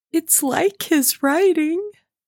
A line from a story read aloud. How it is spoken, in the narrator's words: faltered Meg